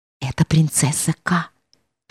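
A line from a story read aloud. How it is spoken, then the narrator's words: Whisper. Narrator (Russian): шепнула Цицилия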